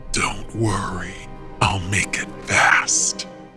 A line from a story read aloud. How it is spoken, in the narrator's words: he rasped